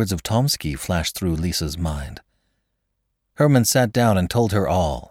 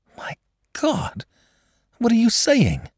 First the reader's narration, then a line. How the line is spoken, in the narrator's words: cried the girl